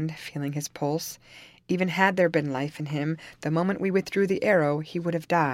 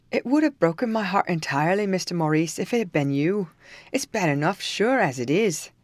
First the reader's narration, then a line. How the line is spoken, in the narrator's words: exclaimed